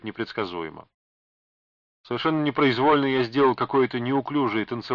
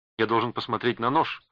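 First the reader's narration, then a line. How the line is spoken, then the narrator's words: Plain. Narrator (Russian): ответил я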